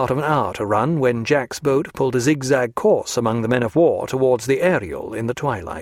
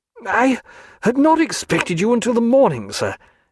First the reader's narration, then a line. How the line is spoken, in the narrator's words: cried the unhappy Captain Draper